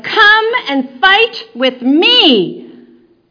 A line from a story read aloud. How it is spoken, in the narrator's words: the giant he was yelling